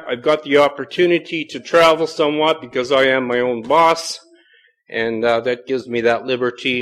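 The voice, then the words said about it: Canadian accent. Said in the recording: “I just have to clarify a few things about being Canadian. I do have an accent that you may not understand”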